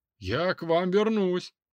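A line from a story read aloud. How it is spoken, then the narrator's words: Man shouting. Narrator (Russian): крикнул мужчина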